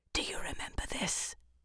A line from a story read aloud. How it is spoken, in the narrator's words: one after the other whispered